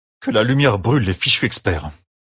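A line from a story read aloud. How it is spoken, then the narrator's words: Growling. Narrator (French): grogna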